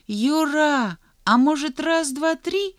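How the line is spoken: Uncertain question. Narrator (Russian): неуверенно спросил Санька

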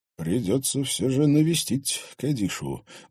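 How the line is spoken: Thoughtful mutter. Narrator (Russian): задумчиво пробормотал шериф

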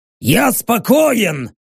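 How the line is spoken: Barked. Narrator (Russian): рявкнул Рек

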